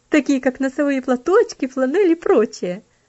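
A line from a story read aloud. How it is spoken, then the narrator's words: Laughing interjection. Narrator (Russian): вставила, смеясь, Аделейд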